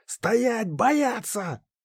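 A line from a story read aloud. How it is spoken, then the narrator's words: Deep breath, shouted. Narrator (Russian): Я вдохнул полной грудью и прокричал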